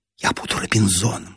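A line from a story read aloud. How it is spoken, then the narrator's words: Whispered. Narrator (Russian): шепнула мне Нина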